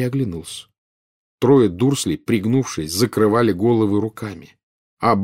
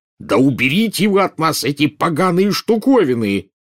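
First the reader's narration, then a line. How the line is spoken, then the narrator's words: Yell. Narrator (Russian): дядя Вернон заорал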